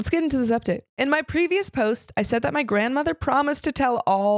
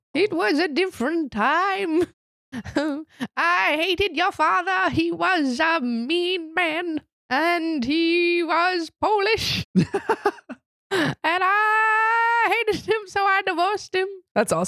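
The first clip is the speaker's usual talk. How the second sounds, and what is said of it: Old person voice. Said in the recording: “I like the old person accent”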